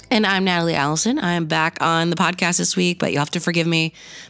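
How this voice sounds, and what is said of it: Voice slightly off, unwell-sounding. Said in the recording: “My voice is still not 100% ... sickness”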